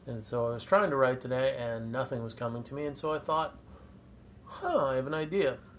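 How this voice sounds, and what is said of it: Congested, sore-throat voice. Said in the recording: “I don't know if you can tell by my voice, but I do not feel very good. I have a sore throat, I'm stuffed up”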